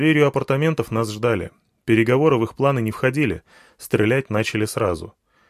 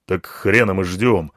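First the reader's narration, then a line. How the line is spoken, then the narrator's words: Angry curt remark. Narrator (Russian): зло бросил слон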